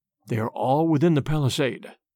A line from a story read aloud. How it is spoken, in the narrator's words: he whispered